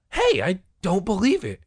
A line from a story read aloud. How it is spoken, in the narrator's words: Sherry cried